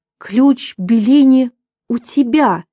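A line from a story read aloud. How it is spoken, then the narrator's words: Exclamation. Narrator (Russian): воскликнул Дрекслер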